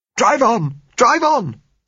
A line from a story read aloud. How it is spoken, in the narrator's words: said Josella hysterically